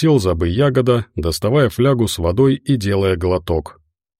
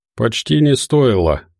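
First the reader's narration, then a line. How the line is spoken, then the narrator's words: Gloomy objection. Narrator (Russian): возразил Волков, мрачно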